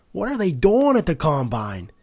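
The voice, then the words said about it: Awful unidentifiable put-on accent. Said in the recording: “I don't even know what accent that was. It was awful.”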